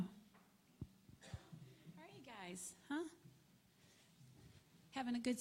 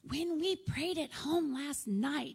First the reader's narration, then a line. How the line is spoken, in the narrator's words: shouted